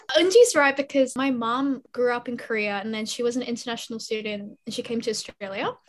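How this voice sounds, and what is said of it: Australian English accent. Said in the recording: “I didn't realize I had an Aussie accent”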